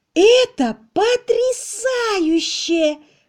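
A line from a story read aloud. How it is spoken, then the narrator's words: Exclamation. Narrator (Russian): воскликнула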